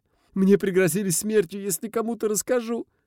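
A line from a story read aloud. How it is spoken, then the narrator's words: Frightened squeal. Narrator (Russian): взвизгнул Маркус, сжимаясь под тяжелым взглядом брата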